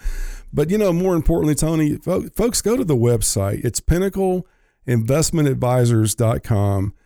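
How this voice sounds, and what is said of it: Congested voice from a cold. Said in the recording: “sorry about my voice. ... a little bit of a head cold”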